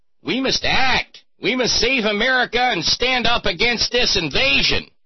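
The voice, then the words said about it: Imitated Michigan accent, not very good. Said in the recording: “My Michigan accent isn't very good.”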